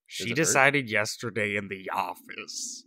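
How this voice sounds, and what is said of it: Imitates another person's voice. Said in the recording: “My Marika impression. ... It's really good, actually. If you're going for an impression, it's pretty spot on.”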